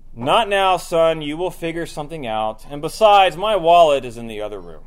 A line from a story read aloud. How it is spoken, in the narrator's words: the father says in a rather annoyed tone of voice